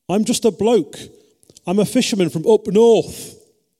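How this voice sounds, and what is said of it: Put-on northern English accent. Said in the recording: “that was a deliberate little bit of northern accent”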